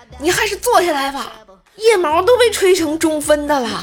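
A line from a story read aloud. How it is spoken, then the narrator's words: Shouted. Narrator (Chinese): 朋友吼了一句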